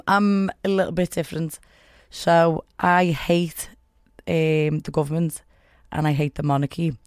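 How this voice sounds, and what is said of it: Liverpudlian Scouse accent. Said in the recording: “that accent, it is Liverpudlian ... Or Scouser.”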